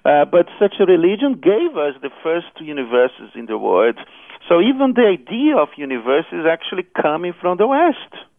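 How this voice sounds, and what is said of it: South American accented English. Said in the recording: “listeners can hear your accent ... They can hear your accent. It's South American.”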